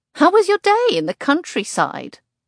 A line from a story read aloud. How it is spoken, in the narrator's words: I laugh